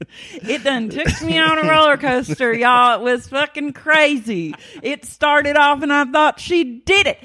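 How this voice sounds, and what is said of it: Oklahoma country accent. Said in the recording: “My Oklahoma has really been unleashed... Oklahoma accent... It's like not Southern, sugar... bumpkin country Western”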